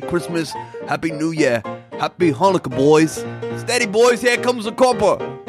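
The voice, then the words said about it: Put-on Cockney accent, maybe sounding Australian. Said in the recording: “my Cockney accent, which might not be that great. Maybe it even sounds Australian.”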